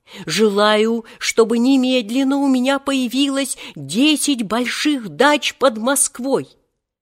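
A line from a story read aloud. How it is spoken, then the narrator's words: Yelling again. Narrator (Russian): он снова заорал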